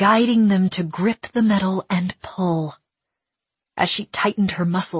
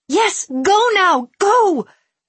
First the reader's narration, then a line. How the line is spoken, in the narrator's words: Willa screamed at the panther